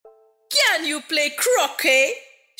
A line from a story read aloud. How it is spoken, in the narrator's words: shouted the Queen